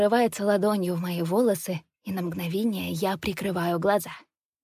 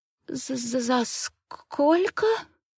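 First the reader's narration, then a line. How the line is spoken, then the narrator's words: Stammering. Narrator (Russian): Заикаюсь я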